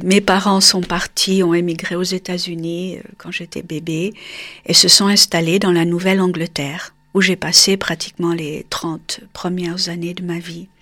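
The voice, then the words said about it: Slight foreign accent in French. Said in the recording (French): “un petit accent qui me colle encore”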